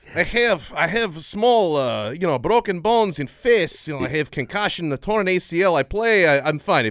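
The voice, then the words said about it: Mock Russian accent. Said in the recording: “you're better at the you're Russian.”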